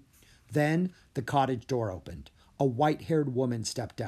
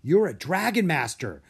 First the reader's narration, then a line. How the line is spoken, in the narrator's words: Drake blurted out